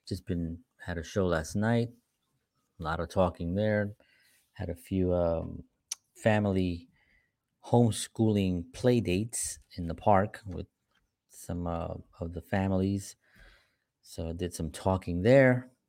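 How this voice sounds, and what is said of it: Slightly hoarse voice. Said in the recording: “excuse my voice a little bit. I'm a little bit hoarse”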